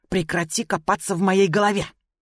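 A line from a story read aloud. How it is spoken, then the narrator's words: Indignant hiss. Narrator (Russian): возмущенно прошипела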